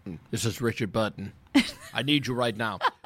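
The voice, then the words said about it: Bad Richard Burton impression. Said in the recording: “a bad Richard Burton impression”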